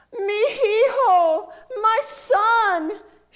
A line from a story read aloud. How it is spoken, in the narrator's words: she exclaimed while manufacturing a smile